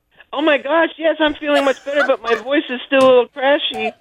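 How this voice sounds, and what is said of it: Man's voice posing as a woman. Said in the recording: “You sound so manly all of a sudden ... this is not sounding like Mercedes. This kind of sounds like”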